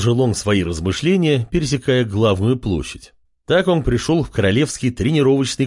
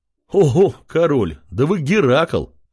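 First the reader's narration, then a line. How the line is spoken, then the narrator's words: Man's laughing remark. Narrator (Russian): хохотнул один крепкий мужчина, бывший беженец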